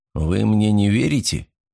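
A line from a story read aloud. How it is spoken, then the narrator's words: Quiet question. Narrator (Russian): тихо спросил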